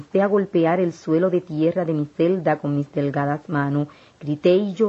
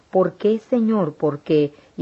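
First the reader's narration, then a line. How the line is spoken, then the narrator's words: Exclaiming. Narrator (Spanish): Yo exclamé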